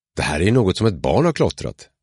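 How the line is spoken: Exclaimed. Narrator (Swedish): utbrast jag

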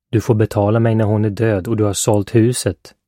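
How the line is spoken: Muttering. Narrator (Swedish): muttrade Poots

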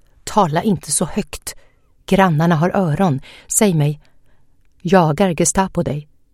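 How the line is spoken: Whispered. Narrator (Swedish): viskade

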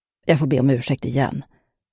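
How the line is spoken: Mumbled. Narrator (Swedish): mumlade Billy

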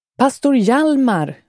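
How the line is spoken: Calling out. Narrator (Swedish): ropade han

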